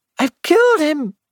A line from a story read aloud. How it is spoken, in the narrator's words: she cried